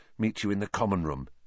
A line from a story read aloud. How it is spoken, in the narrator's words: Harry muttered